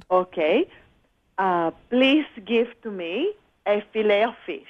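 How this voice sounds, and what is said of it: Colombian Spanish accent. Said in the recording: “get rid of that accent ... from. Colombia”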